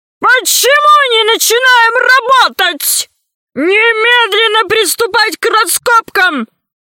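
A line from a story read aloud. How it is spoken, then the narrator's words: Nervous shouting. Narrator (Russian): кричал он только для того, чтобы самого себя успокоить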